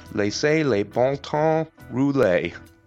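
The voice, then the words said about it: Attempted Louisiana French accent. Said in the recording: “imagining a perfect Louisiana French accent”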